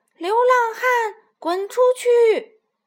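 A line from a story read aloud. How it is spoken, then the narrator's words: Shouting chicks. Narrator (Chinese): 小鸡们又开始喊道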